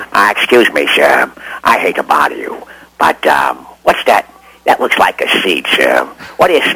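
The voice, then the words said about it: Imitates a TV detective's voice. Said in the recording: “I was doing Columbo. I was doing my Columbo.”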